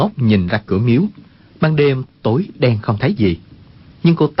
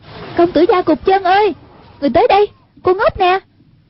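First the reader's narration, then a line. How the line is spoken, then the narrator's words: Calling out. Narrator (Vietnamese): Hoàng Dung kêu lên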